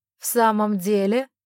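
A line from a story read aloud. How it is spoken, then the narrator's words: Cold laugh. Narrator (Russian): холодно рассмеялся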